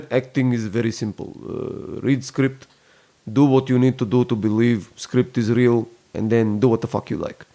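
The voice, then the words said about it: Put-on Russian accent. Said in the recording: “I like your Russian accent.”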